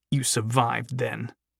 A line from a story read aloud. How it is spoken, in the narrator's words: Thadwick said bitterly